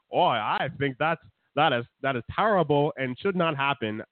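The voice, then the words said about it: Character voice imitating another person. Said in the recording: “This Norm character sounds a lot like your Bernie Sanders impression.”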